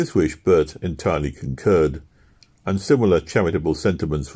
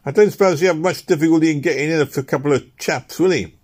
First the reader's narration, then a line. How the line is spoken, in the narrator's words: replied Newman, adding with a mirthless laugh